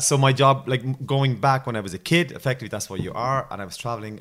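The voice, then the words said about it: Irish accent. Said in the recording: “clearly I'm not from Australia with this accent ... the stereotypical Irish drunk guy”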